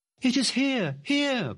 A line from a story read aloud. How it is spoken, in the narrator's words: cried the girl, full of excitement